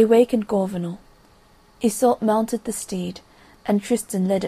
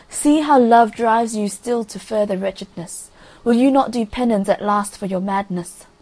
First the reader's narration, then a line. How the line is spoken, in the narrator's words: he cried